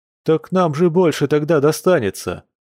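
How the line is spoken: Cheerful reply. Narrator (Russian): весело отозвался кто-то из близнецов

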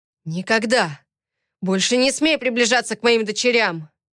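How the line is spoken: Barked. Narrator (Russian): Рявкнул

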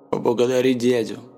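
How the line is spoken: Grumbling father. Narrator (Russian): проворчал отец

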